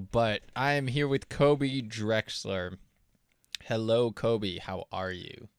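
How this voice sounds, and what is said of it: Unusually deep voice. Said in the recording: “My voice is deep right now”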